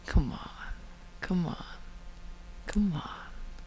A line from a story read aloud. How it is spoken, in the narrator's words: John murmurs